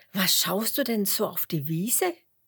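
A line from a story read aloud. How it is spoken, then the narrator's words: Laughing. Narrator (German): lacht Huberto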